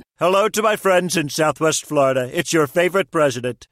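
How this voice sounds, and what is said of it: Celebrity voice impersonation. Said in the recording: “Celebrity voice impersonation.”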